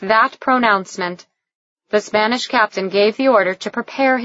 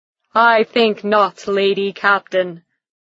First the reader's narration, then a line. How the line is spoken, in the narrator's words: When she didn't respond to his laughter, he called out